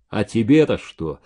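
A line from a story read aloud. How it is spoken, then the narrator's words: Dry. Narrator (Russian): сухо сказал Владька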